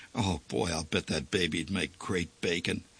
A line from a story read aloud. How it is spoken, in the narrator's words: finally said in a quiet voice